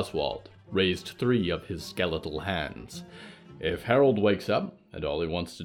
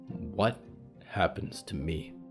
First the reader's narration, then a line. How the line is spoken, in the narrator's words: Percy said quietly